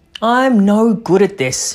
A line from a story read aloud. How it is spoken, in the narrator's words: he cried